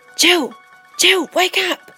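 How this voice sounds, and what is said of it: Shouty whisper. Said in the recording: “I whispered in a shouty voice.”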